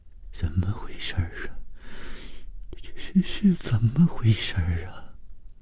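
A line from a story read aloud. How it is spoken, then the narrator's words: Trembling voice. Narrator (Chinese): 谭小颖声音颤抖地说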